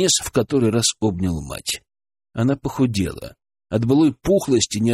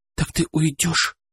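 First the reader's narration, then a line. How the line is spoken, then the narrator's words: Frightened question. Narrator (Russian): спросила испуганно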